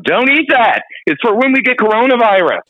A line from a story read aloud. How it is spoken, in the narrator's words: I had to scream out